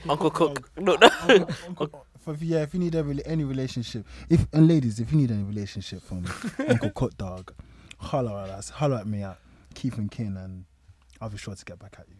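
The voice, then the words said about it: Low, seductive pillow-talk voice. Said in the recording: “bedroom voice? ... That was the pillow talk voice.”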